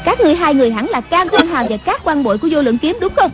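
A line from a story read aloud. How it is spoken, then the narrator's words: Loud bark. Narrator (Vietnamese): Người đứng giữa quát lớn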